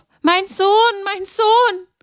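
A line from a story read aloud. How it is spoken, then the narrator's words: Loud anguished cry. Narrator (German): schrie sie laut auf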